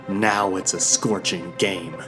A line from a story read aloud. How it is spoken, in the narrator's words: she spat